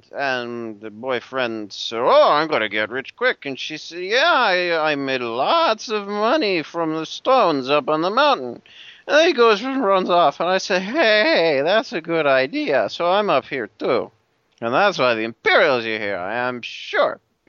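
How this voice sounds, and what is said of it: Poorly acted drunk voice. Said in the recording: “He's doing such a terrible impersonation of a drunk person.”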